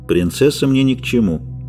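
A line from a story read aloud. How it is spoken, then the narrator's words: Calm. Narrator (Russian): спокойно сказал Геральт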